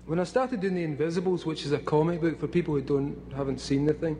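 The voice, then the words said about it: Scottish accent. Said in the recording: “I still can't do a Scottish accent”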